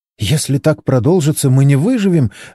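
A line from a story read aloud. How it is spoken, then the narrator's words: Babbling, frightened. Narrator (Russian): лепетала Моника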